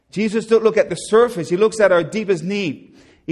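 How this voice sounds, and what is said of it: Newfoundland accent. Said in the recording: “If you don't understand my accent ... My Newfie accent.”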